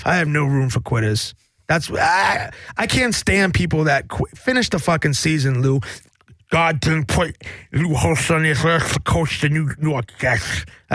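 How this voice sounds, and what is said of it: Imitates another person's voice. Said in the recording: “my terrible Lou Holtz impersonation.”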